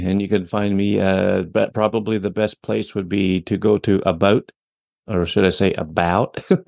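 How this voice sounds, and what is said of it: Canadian accent. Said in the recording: “Me and my Canadian accent.”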